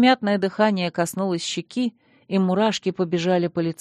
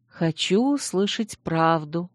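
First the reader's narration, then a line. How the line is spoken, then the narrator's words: Whispered reply. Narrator (Russian): также шепотом ответила я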